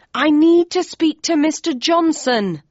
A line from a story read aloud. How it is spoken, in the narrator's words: I yelled